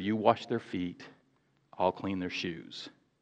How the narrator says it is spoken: whispered

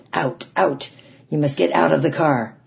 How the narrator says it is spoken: His face snarled with anger, and he shouted

